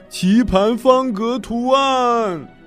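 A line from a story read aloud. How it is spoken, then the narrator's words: Loud shout. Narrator (Chinese): 另一个人大叫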